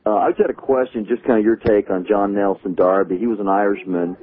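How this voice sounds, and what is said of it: American accent. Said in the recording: “I'm an American. You can tell by my accent ... You're a Texan, aren't you? ... I'm from South Carolina ... Some of you picked up some of that Midwestern sound.”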